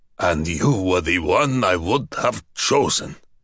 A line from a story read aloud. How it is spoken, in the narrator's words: he snorted